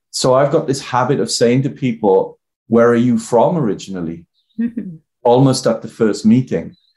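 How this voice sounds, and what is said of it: Welsh accent. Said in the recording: “I've got a Welsh accent”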